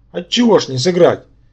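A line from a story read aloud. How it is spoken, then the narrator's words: Amused snort. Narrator (Russian): хмыкнул он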